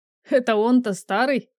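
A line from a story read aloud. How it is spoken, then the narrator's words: Laughing loudly. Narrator (Russian): расхохотался Артур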